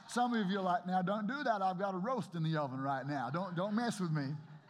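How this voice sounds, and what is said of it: Bad put-on American accent. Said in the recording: “That was a really bad American impersonation,”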